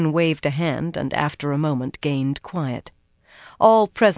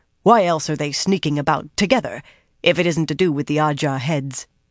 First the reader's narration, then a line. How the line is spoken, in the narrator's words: Talin barked